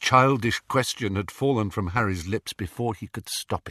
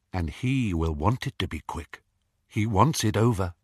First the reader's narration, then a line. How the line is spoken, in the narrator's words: said Lupin